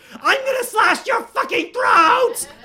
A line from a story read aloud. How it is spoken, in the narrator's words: screamed